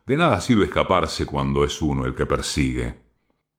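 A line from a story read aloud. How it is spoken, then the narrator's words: Murmured in ear. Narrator (Spanish): Stoll le murmuraba al oído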